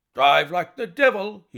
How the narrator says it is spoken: he shouted

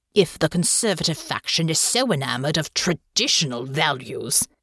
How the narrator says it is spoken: snarled

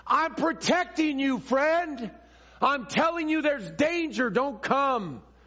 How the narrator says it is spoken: his voice declares

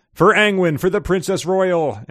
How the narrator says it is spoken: He dies yelling

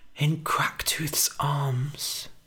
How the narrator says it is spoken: whispered Billy

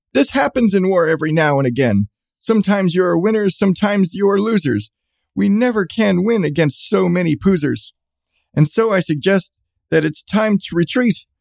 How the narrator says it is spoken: And Genghis Khan Schmitz shouted out to his men

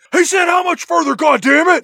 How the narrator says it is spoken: screams

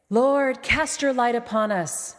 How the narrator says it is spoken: Melisandre called out

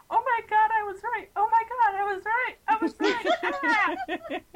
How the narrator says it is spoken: I was screaming

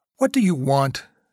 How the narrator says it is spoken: she said sharply

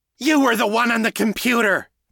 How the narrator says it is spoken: Callie shouted back

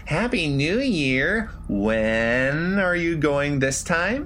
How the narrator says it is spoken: My voice was a dry croak, my tongue heavy in my mouth

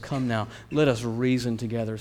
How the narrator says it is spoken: says the Lord

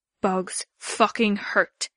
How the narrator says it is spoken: he growled

